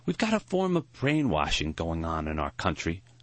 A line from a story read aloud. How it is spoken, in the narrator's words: Maury sighed